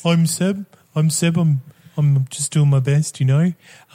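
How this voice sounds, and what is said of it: Put-on New Zealand accent. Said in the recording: “I got a Kiwi accent because... the only accent I can do. I'm going to just have a Kiwi accent.”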